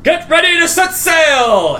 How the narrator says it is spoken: yells and he says

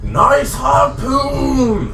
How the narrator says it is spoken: he shouts out

